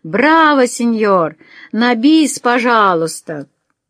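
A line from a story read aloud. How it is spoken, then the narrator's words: Laughing loudly. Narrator (Russian): заливаясь хохотом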